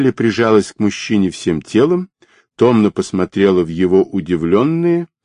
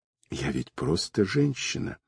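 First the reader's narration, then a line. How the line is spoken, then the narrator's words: Whisper. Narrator (Russian): прошептала она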